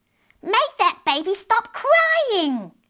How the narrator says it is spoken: shouted crossly

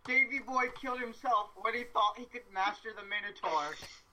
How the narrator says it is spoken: yell

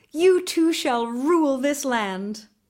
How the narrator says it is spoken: they cried

